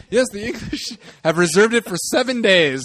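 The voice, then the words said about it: Put-on African accent. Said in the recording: “this is my African accent, by the way”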